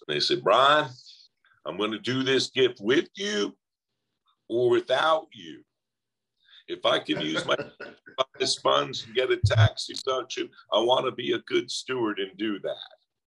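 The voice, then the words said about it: Put-on Southern drawl. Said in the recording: “I always use my Southern drawl when I do this”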